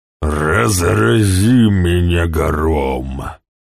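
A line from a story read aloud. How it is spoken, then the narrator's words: Hoarse booming thunder. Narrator (Russian): загремел ГМ так же хрипло, как часовой колокол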